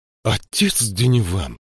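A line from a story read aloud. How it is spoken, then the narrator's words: Shocked exclamation. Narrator (Russian): воскликнула слегка шокированная Мириамель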